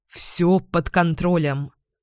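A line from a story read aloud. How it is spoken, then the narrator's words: Dry. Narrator (Russian): сухо добавляет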